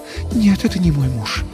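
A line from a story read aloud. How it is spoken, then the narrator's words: Sighing. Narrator (Russian): вздохнула она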